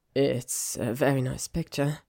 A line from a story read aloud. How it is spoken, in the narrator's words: he said a bit weakly